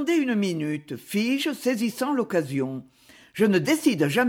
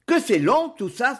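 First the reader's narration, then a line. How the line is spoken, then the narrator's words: Exclaiming. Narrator (French): s'écria-t-il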